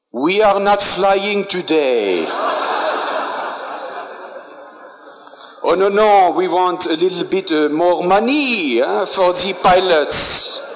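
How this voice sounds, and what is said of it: Put-on European country accent. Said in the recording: “maybe by the accent, you might find out”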